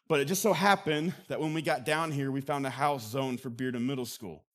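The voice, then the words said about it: Southern American accent. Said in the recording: “now I talk with a Southern accent.”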